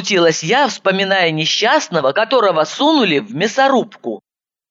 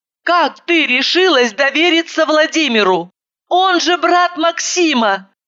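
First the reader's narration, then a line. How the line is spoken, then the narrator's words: Shouted. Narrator (Russian): закричала я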